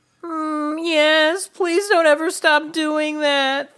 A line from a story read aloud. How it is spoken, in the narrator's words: Thea moaned